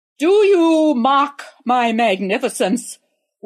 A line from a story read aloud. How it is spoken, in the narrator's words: roared the emperor in his most imperious voice